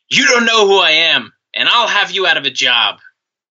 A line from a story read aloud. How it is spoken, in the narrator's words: as he was being booted, Flair shouted